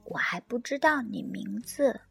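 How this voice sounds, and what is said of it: Soft, quiet voice. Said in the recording (Chinese): “小声说”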